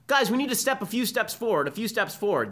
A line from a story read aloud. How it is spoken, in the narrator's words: this associate dean for student life, or Greek life, or one of her compatriots, yells to the crowd